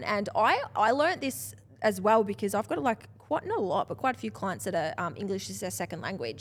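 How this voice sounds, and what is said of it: Speaks with a strong accent. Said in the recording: “it's hard enough to understand my accent”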